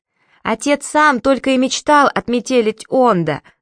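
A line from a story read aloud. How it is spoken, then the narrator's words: Yelled reply. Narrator (Russian): завопил в ответ Сири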